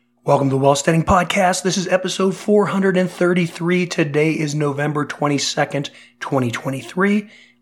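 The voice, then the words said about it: Voice not fully recovered. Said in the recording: “obviously you can hear my voice has not fully recovered ... what this might sound like ... this cough and cold”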